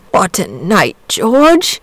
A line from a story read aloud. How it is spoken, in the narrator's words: he murmured